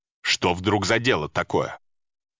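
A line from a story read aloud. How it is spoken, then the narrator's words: Sharp sullen question. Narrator (Russian): что у него нет настроения, он резко спросил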